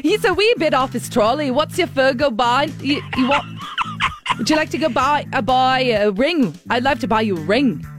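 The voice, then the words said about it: Attempted Scottish accent, drifting southern. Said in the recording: “Scottish ... she can nail a Scottish accent, so this is going to be embarrassing ... Ugh, no, that sounded far more south.”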